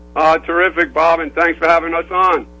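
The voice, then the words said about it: New York accent. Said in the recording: “you can probably tell by my accent because it's hard to hide. I began my career in New York City.”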